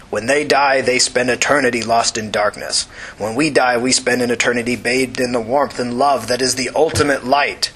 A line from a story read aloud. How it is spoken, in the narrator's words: his voice was a snarl of contempt